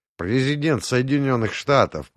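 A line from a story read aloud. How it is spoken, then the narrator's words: Grumbling. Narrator (Russian): пробурчал я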